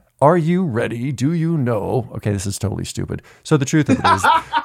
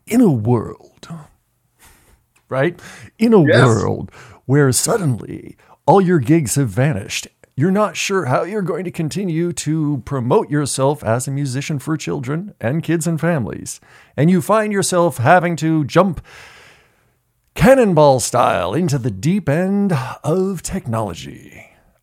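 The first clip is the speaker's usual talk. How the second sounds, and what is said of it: Movie trailer narrator voice. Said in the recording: “I'm going to put on my movie voice.”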